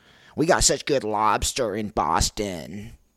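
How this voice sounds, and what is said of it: Put-on Boston accent. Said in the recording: “Got to get my Boston accent down, which sounds like this.”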